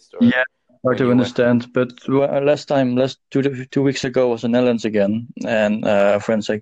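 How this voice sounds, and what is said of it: Dutch accent, slightly British. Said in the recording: “your accent ... I think it's mostly Dutch accent ... you have like a British accent, a little bit.”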